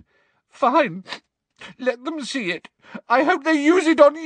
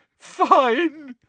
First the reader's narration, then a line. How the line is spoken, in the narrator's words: said Hermione, now sobbing into her hands again